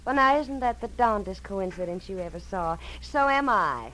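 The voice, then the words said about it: Southern accent. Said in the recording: “a southern accent”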